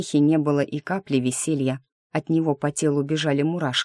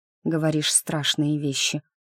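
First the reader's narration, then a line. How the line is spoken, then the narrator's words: Quiet remark. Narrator (Russian): тихо заметила я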